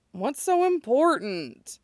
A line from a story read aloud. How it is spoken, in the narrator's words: Tetsudo whines